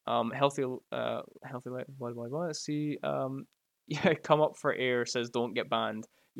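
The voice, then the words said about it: Scottish accent. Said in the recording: “there's very few Scottish people that will just be outright assholes to you ... we're friendly ... give me your accent. Honestly, if I could give you my accent, I would give you my accent.”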